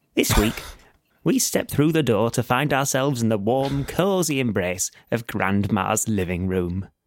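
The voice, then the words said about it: Doddery old Gardeners' Question Time voice. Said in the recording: “it only works with doddery old Gardener's Question Time accent”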